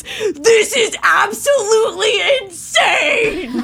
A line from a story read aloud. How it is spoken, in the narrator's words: Zach screams